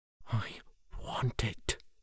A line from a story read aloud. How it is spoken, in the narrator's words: said quietly